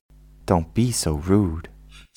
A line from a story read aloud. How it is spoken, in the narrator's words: said Cam